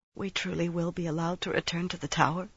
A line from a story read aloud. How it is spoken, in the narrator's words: she mumbled into her hand